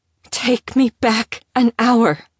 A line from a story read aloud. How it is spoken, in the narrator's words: rasped